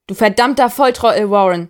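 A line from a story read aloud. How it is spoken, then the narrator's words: Yelling angrily. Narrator (German): schreit Martinez ihn an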